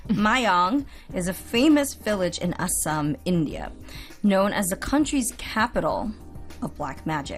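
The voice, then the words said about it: American accent. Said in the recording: “I'm going to pronounce it with my American accent.”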